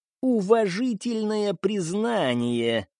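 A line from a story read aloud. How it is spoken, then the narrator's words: Creaky voice. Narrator (Russian): проскрипел Маклер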